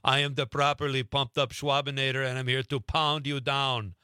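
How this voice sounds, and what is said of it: Arnold Schwarzenegger Austrian accent impression. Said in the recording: “You would speak in an Arnold Schwarzenegger Austrian accent.”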